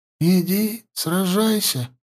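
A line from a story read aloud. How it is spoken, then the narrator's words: Whisper. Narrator (Russian): прошептала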